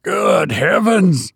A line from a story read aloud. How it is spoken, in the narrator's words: cried the captain